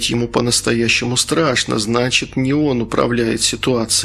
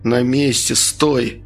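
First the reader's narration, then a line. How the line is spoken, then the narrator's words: Through gritted teeth. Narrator (Russian): ответил я сквозь зубы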